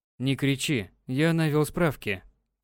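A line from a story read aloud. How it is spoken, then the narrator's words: Quiet. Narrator (Russian): тихо произнёс Юрий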